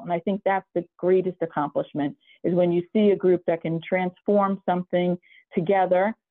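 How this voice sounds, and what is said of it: New York East Coast accent. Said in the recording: “you have the absolute perfect East Coast accent. I'm not sure if it's a New York accent or maybe a little bit Northeast accent, but literally the perfect New York East Coast accent. ... I have a little bit of the Brooklyn accent too”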